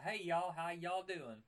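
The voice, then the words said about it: Put-on Southern US accent. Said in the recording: “someone with a southern accent”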